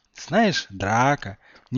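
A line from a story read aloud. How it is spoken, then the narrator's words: Tender. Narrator (Russian): нежно сказал Гарри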